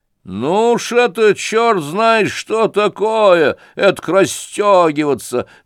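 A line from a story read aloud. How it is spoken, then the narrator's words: Yell. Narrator (Russian): заорал Фердыщенко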